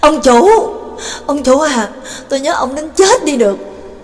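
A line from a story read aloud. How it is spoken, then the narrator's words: Sobbing, loud howl. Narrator (Vietnamese): khóc lóc ròng ròng, đồng thời lớn tiếng rống lên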